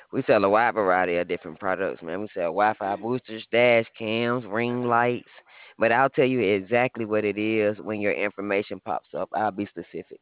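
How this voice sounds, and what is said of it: Southern Texas accent. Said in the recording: “Where's your accent from? It's different. ... We're located in Texas. ... a Southern accent”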